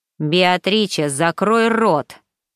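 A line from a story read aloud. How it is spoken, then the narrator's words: Clipped, emphatic. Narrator (Russian): отчеканил Санто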